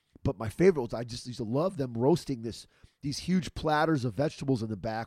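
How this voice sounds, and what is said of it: Hoarse, partly lost voice. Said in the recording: “I lost my voice a little bit this last week ... your boy got lost a little voice, so it's still coming back.”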